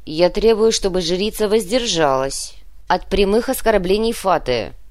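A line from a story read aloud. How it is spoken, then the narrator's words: Growled, female commander. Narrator (Russian): прорычала воевода дочерей Журавля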